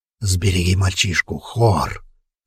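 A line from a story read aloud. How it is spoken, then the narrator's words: Hoarse wheeze. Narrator (Russian): Опять захрипел Хродвиг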